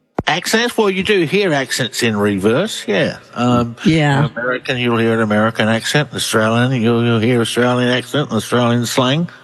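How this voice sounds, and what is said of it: Australian accent. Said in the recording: “Australian researcher. Love the accent... You do. You have a great one.”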